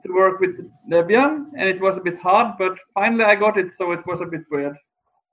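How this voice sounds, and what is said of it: European (Norwegian) accent. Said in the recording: “I can hear the European accent”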